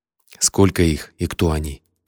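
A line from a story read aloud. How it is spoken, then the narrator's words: Quiet question. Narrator (Russian): тихо спросил я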